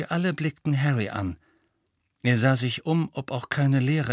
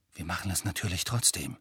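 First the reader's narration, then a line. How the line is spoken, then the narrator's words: Quiet. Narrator (German): sagte er leise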